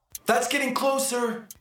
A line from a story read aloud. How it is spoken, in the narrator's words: yelled right into the button that he was pushing, which is not a microphone